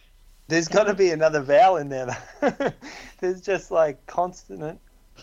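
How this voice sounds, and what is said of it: Usual voice. Nothing is said of it.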